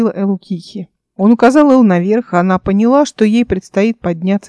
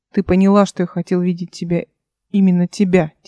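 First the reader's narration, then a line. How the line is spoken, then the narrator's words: Quiet. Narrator (Russian): тихо сказала Радаборт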